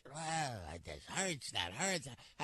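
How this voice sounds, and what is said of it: Whiny imitation of another person's voice. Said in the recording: “you whine about it, like me ... whining. It's my Larry David impression.”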